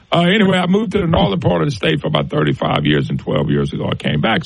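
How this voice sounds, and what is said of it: Southern Louisiana accent. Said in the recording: “I'm from the southern part of the state. You probably can tell, Louisiana. Some people say I have an accent.”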